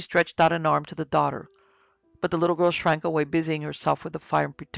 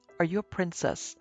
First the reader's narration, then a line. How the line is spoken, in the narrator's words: the little boy repeated